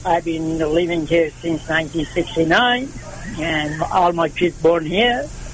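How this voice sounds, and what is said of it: Foreign accent. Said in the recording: “It sounds like you have an accent, a foreign accent.”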